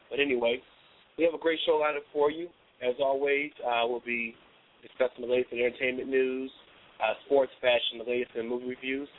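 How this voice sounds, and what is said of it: Raspy, hoarse voice. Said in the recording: “if I'm kind of raspy. I'm going under the weather.”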